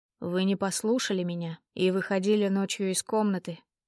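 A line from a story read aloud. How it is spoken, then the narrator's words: Quiet. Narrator (Russian): тихо произнес он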